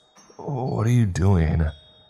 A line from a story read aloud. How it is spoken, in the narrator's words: the body asked in a weak voice